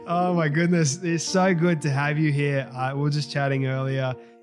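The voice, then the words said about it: Australian accent. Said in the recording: “it's so nice to hear an Aussie accent.”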